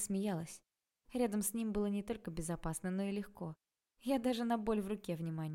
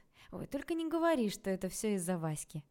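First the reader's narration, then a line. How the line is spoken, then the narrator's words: Smirking snort. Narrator (Russian): хмыкнула я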